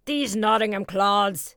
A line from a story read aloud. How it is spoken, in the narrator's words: cried one scornfully